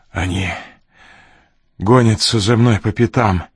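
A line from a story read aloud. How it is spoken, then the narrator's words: Hoarse, strained. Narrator (Russian): хрипло выдавил Ренли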